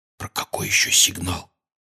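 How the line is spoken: Quiet question. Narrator (Russian): тихо спросил Гарри

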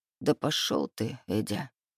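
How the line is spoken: Tired mutter. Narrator (Russian): Устало пробормотал я

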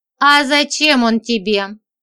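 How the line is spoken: Mustached man's skeptical snort. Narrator (Russian): хмыкнул усатый

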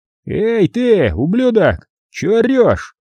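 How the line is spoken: Loud question from above. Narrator (Russian): громко спросили сверху

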